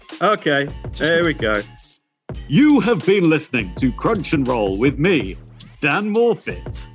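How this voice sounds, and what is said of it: Nasal Yorkshire accent. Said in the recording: “one of those really annoying nasally off Yorkshire voices ... your accent hasn't really changed”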